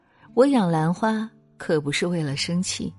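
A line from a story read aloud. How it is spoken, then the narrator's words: Calm, smiling old monk. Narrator (Chinese): 老和尚淡然一笑，说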